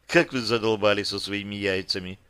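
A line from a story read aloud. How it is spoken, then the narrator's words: Sighing mouse. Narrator (Russian): вздохнула мышь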